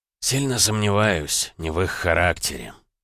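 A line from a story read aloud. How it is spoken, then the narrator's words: Quiet reply. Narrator (Russian): тихо ответил император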